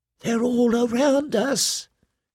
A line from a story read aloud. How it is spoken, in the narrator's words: he whispered